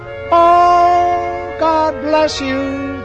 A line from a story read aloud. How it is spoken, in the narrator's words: they yell, when I send them home well